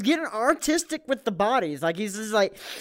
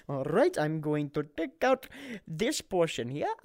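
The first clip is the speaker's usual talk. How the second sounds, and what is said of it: Put-on Indian accent. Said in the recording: “Why did you go to an Indian accent?”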